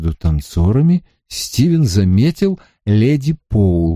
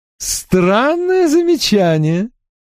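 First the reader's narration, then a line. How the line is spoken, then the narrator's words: Laughing lady. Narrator (Russian): рассмеялась дама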